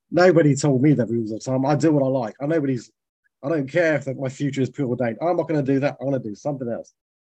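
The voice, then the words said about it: Drifts into a put-on accent. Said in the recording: “I think I might have drifted into an accent there ... You're not a bad one, too.”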